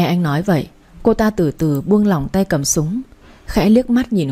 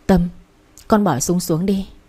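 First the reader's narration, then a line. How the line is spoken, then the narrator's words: Trembling voices in unison. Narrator (Vietnamese): Mọi người đồng loạt run run bảo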